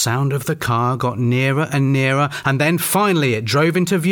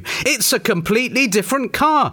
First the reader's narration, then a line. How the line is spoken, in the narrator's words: said, trying his very best not to exclaim, but failing miserably